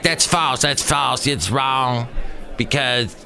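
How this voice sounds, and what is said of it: Imitates another person's voice. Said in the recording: “are you imitating me? ... That was pretty good. ... Actually, I'm a little deeper than that.”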